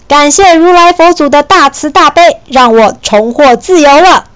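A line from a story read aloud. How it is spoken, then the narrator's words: Shouting. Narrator (Chinese): 他大喊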